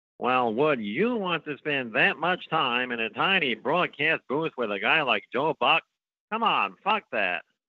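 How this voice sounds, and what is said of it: Impression of Vin Scully. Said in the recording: “This might be the most honest I've ever heard Vin Scully be.”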